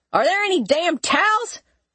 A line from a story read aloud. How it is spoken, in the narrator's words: He yelled